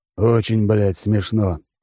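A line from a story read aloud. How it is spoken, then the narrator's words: Hissed. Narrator (Russian): прошипел Алекс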